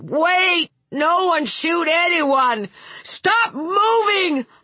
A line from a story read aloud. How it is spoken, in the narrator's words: Hutter shouted